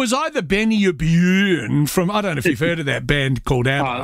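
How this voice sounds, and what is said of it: Usual voice. Nothing is said of it.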